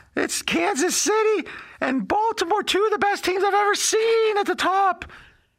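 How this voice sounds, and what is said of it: Imitates another person's voice. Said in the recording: “this is just me imitating it now”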